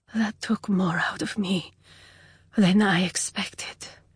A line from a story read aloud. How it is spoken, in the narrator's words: she said softly